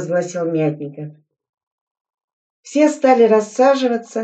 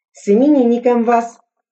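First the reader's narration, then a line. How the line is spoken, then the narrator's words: Joyful crowd noise. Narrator (Russian): Взвод радостно зашумел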